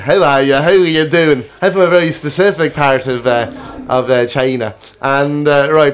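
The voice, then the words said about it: Irish Meath accent impression. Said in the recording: “There's an Asian man with a with a Meath accent.”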